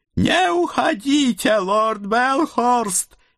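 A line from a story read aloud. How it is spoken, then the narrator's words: Dwarf's spluttering howl. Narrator (Russian): взвыл карлик, брызгая слюной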